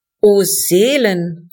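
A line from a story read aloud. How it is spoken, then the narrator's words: Called out. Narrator (German): rief ich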